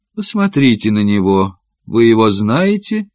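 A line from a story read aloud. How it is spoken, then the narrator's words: Calm. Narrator (Russian): Гью спокойно сказал даме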